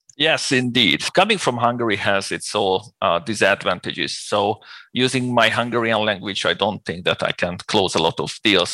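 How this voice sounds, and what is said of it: Hungarian accent in English. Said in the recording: “people can probably guess from your accent that you're not from the United States or the UK. Now, you're from Hungary”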